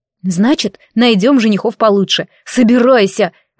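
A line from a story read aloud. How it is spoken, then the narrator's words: Growling. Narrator (Russian): рыкнула на нее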